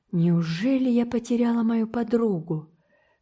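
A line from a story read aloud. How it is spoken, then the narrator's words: Sighing. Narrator (Russian): вздохнула Энн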